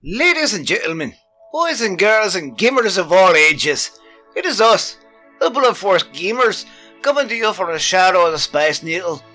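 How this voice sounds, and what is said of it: Silly put-on accent. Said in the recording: “I'm already screwed up my accent ... We all got a strange, silly voice we're doing, and we're gonna do this entire episode in a weird voice.”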